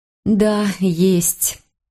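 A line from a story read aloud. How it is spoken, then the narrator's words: Slow. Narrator (Russian): медленно сказала я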